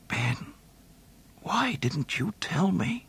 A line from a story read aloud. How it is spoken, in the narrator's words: he muttered softly, and then, in utter despair, whispered